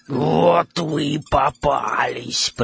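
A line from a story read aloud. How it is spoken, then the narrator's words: Hoarse wheezing voice. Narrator (Russian): прохрипела она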